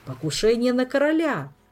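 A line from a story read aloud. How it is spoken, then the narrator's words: Joyful shout. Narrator (Russian): радостно вскричал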